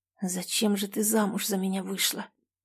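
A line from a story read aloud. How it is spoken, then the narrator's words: Whisper. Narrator (Russian): прошептал Влад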